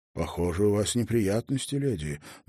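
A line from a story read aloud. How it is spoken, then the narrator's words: Soft male voice. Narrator (Russian): мягко промолвил он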